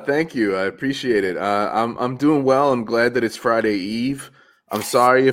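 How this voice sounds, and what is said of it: Slightly nasal, stuffed-up voice. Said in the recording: “I sound a little nasally ... I'm still a little stuffed from a cold I have”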